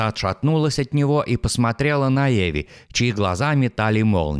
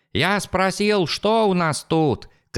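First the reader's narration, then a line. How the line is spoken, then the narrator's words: Shout. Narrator (Russian): крикнул Джеральд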